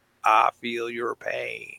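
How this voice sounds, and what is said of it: Imitates another person's voice. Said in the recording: “my best Bill Clinton imitation”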